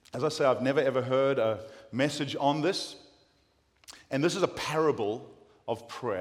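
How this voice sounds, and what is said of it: South African accent. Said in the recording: “I've kept my South African accent”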